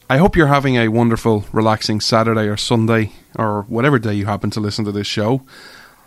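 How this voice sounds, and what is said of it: Irish accent. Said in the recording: “Irish man ... where you come for the accent”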